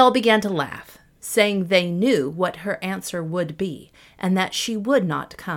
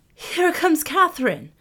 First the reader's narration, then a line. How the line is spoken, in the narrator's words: suddenly Baptista cried